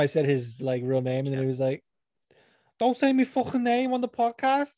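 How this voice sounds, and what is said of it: Usual voice. Nothing is said of it.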